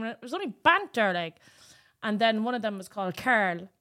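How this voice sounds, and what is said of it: Thick Cork Irish accent. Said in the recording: “I've a bit of a thick Cork accent”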